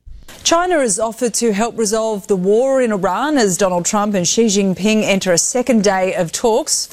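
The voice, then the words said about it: Australian accent. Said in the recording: “I do like that Australian accent.”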